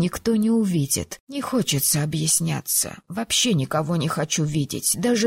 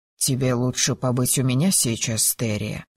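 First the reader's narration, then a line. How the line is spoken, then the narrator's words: Soft. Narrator (Russian): мягко произнес Арис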